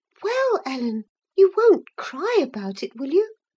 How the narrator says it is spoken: exclaimed, surprised at my earnestness

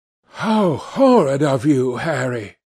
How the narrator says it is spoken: cried the Duchess

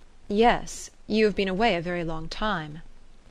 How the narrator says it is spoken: he answered somewhat stiffly

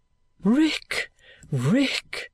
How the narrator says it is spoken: cried with a sudden terror in his manner in an altered voice

